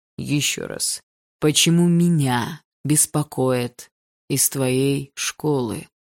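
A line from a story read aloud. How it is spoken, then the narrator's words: Slow, clear, fatherly. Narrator (Russian): Медленно и четко произнес его отец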